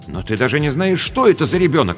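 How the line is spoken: Exclaimed. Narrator (Russian): воскликнул Рубен

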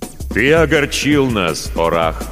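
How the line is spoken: Loud, displeased. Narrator (Russian): громко сказал певец

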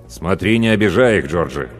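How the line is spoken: Stern warning. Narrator (Russian): строго предупредил он бригадира

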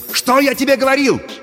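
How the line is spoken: Excited shouting. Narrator (Russian): возбужденно кричал Пашка

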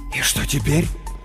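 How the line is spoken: Whisper. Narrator (Russian): прошептал он

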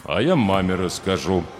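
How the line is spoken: Cold declaration. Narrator (Russian): холодно заявил холодильник

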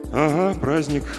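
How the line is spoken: Grumbling. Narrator (Russian): буркнул Жаботинский

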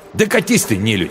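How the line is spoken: Angry snap. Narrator (Russian): зло огрызнулся он

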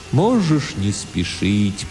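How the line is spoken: Strange, sad, distant voice. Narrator (Russian): произнес Тимулки очень странным, грустным, далеким, философическим голосом

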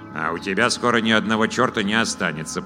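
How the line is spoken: Grumble. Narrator (Russian): проворчал вур

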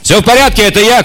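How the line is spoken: Shouting. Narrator (Russian): крикнул Тисима

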